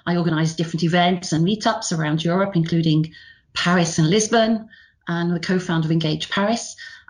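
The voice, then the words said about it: Northern British accent. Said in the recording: “my lousy Northern British accent”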